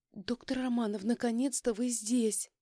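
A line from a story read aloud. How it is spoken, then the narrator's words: Joyful breath, turning seductive. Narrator (Russian): Радостно выдохнула, преображаясь из плачущей истерички в профессиональную соблазнительницу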